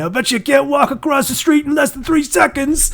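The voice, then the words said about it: Put-on New Jersey accent. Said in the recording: “my New Jersey accent ... It was just a flattened New York accent. Like it was just like a toned down New York accent.”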